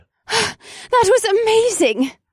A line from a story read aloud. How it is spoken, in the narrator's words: Alyssa exclaimed